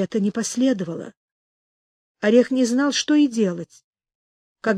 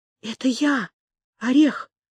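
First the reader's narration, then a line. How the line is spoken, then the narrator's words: Breathed out. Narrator (Russian): не сказал, а выдохнул одуванчик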